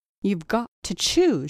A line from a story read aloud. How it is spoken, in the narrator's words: she cried, as if it were some terrible menace, and as if it hurt her that she could not exact more